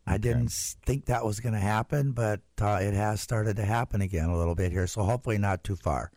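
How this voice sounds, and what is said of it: Slightly raspy voice. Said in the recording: “Your voice is a little raspy”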